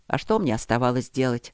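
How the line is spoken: Calm question. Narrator (Russian): спросил Осокин спокойно

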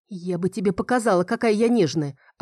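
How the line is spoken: Snapping retort. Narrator (Russian): огрызнулась

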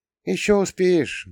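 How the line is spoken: Sad smiling mother. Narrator (Russian): грустно улыбнулась мама

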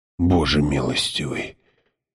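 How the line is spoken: Whispered. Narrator (Russian): прошептал отец Хойт

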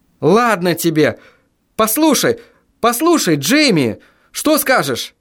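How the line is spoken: Desperate exclamation. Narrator (Russian): Воскликнул я в отчаянии

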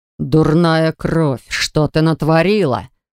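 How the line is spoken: Man growling. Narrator (Russian): прорычал мужчина

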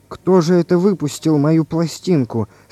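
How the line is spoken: Weak questioning voice. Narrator (Russian): спросил Иван Иванович слабым голосом

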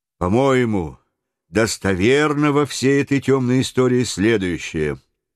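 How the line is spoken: Calm steady reply. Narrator (Russian): ответил майор своим неизменно спокойным голосом

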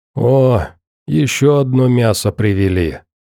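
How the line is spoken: Hoarse voice. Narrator (Russian): хриплым голосом сказал сидевший у очага

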